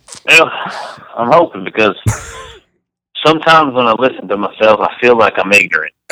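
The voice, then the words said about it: Texas Southern accent. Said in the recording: “the Texas accent ... the Southern accent”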